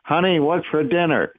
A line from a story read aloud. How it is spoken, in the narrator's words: shouted